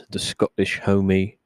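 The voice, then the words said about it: Put-on accent, sounds a little British. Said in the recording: “that sounded a little British.”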